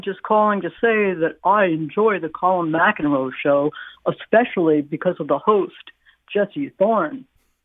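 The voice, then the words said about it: Imitates a radio promo announcer voice. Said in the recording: “That's a pretty good impersonation of the person who does that, that promo.”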